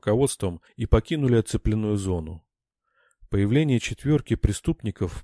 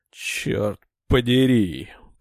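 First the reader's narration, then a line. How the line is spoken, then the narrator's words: Groan. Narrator (Russian): простонал Маронг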